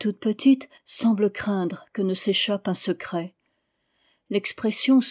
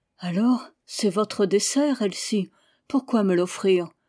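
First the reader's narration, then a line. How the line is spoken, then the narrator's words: Little girl, timid reply. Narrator (French): La toute petite répond timidement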